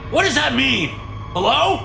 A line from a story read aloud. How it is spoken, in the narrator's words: Marshall shouts at the TV